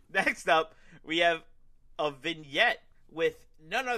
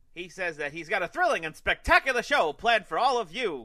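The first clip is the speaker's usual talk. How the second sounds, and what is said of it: Circus ringmaster voice. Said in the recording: “your best ringmaster impression”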